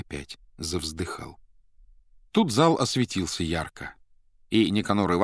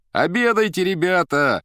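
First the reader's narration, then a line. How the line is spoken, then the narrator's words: Cooks shouting. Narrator (Russian): кричали повара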